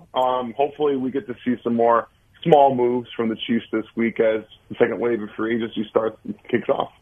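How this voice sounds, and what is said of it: Slightly grainy, recovering voice. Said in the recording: “my voice is recovering a little bit. I went to a concert over the weekend ... it's just a little bit grainy still”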